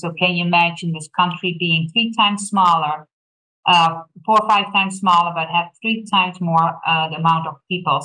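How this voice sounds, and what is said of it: Dutch accent. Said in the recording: “apparently I have not mastered the Thorp accent yet. I was born and raised in a tiny little country in Europe called Holland, the Netherlands”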